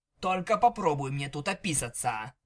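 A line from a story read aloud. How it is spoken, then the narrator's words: Growled. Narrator (Russian): прорычал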